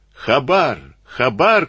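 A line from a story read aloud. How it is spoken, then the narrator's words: Group shouting. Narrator (Russian): кричали они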